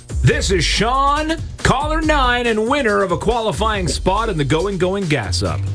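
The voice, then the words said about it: Rich golden radio-announcer voice. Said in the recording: “you got that golden radio voice ... he's got the golden voice”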